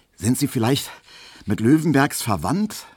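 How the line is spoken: Asked, slightly panting. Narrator (German): fragte Emil Kubinke, während sie beide den Korb doch schon etwas keuchend durch den Hausgang schleppten

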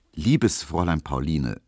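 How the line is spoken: Very calm reply. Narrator (German): versetzte Emil Kubinke sehr ruhig

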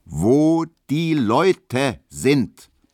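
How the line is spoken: Very loud roar. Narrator (German): brüllte Herr Löwenberg, dass man es bis schmarkender führen konnte

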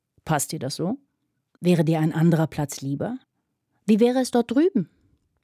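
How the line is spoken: Calm question. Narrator (German): fragte Fanny ganz ruhig

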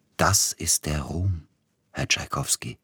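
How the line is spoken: Quiet. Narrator (German): sagte er leise

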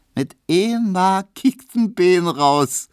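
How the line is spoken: Laughing call. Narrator (German): rief Emma lachend

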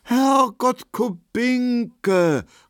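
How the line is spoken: Feigned astonished exclamation. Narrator (German): rief Markowski erstaunt, und er spielte seine Rolle sehr gut

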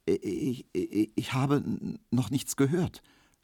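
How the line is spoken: Stammering. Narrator (German): stotterte Emil Kubinke

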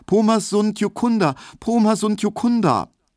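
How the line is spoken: High, fearful repeated calling. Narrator (German): er rief nur immer wieder ganz hoch und ängstlich

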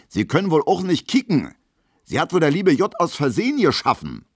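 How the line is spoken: Shouting. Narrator (German): schreit Gustav Schmelo

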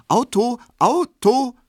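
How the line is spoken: Very bright and loud. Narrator (German): sehr hell, laut und selbstständig

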